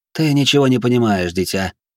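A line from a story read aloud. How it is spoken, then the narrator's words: Sighing. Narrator (Russian): вздохнула Фламиника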